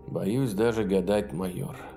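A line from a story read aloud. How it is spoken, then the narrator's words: Sighing. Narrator (Russian): вздохнул Ю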